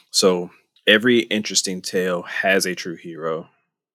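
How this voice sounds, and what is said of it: Theatrical character voice. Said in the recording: “doing this in character voice”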